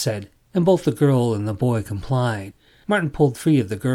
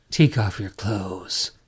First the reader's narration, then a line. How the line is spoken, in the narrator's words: Martin said, his voice husky